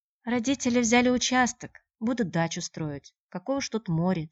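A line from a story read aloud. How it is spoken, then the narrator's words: Said quietly. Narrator (Russian): тихо сказала она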